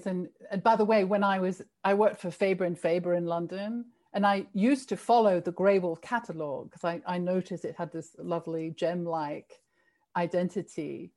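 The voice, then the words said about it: British accent. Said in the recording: “my accent is more like yours than it is to American. So I'm a I'm a former Brit”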